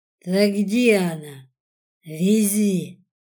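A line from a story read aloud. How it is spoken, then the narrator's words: Commanding. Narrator (Russian): распорядился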